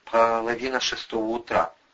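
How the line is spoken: Gloomy. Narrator (Russian): мрачно сообщил армеец

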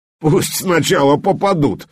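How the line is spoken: Cocky bear cub. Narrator (Russian): самонадеянно заявил медвежонок

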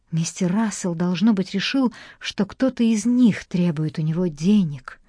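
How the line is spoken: Whisper. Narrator (Russian): прошептала мисс Гунтер

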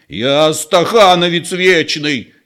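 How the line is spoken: Near shout, old man. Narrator (Russian): чуть не закричал старик

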